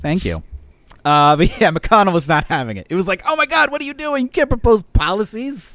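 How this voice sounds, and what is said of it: Usual voice. Nothing is said of it.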